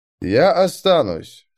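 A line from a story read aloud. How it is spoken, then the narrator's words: Calm. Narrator (Russian): спокойно сказал Дул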